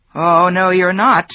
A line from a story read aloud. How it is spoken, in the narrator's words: her father yelled